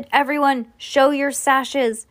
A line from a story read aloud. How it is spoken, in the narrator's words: The clay creature howled